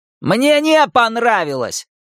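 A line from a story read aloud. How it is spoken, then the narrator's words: Shouted. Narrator (Russian): прокричал Генри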